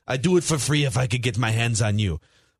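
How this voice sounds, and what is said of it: Imitated foreign accent. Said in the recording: “he had some other foreign accent too”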